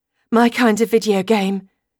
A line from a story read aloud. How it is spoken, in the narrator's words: reply breathlessly